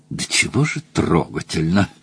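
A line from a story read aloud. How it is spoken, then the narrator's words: Mumbled. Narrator (Russian): пробормотал Мадж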